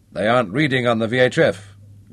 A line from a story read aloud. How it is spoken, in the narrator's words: grunted the trog